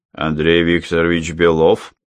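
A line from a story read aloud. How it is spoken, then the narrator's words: Deep bass voice. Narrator (Russian): пробасил он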